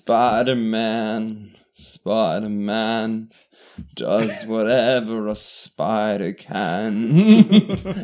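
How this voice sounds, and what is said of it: Sung imitation of a band's singer. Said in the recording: “my impression now of The Cure singing the Spider-Man theme song ... That's not very good.”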